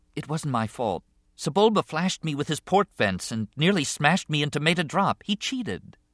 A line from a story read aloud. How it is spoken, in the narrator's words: Anakin said quietly